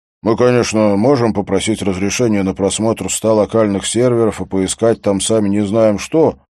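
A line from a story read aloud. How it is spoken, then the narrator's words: Plain. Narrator (Russian): сказал Хольм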